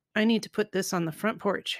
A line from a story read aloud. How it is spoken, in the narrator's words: Harry said